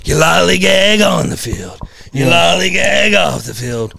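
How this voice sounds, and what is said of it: Impression of manager Joe Riggins. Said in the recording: “great impression”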